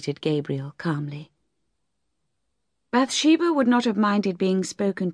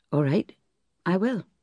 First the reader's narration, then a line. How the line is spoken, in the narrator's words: said Gabriel calmly